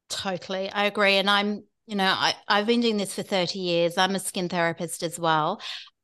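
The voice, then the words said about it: British accent. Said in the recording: “I'm originally from the UK, in case you're wondering why I've got a weird accent”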